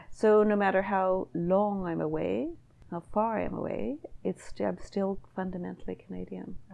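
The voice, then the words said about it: Canadian accent. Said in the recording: “I have a Canadian accent”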